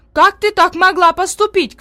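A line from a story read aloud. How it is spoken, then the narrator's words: Shouting. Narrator (Russian): кричала одна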